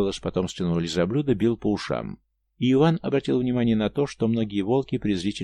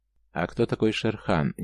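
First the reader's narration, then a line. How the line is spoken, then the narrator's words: Quiet question. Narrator (Russian): негромко спросил волк у матери-волчицы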